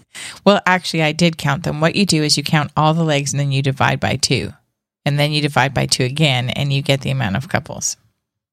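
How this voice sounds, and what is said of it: Hoarse, fading voice. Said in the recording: “I'm losing my voice the longer I talk”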